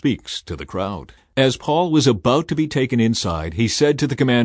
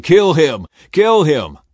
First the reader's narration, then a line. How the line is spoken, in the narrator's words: the crowd shouting